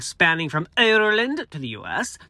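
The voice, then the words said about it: Poor put-on Irish accent. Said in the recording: “That's a horrible Irish accent.”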